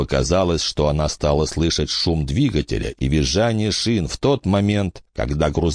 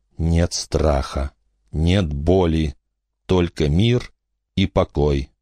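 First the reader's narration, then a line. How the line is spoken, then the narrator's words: Quiet. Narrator (Russian): Рамона тихо проговорила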